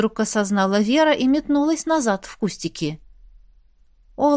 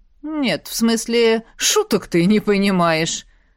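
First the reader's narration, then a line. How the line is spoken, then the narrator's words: Laughing. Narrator (Russian): хохотнул он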